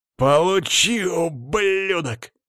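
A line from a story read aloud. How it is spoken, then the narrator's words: Growled. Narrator (Russian): прорычал кузен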